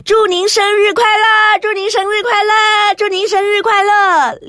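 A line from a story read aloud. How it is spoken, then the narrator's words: Shouting in chorus. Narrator (Chinese): 动物们异口同声的喊起来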